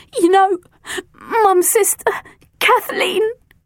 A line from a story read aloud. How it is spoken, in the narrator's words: stammered between sobs